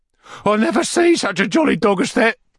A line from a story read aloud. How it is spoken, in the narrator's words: cried Master Bates